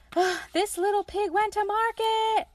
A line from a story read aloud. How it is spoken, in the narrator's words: shouted Little Tom Pig gaily